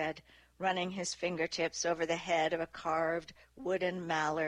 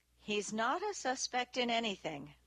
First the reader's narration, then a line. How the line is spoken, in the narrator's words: Nick said evenly